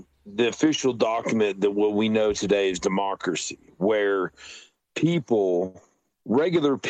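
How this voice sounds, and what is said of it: Usual voice. Nothing is said of it.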